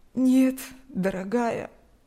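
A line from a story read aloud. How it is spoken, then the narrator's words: Sad older woman. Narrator (Russian): грустно улыбнулась пожилая женщина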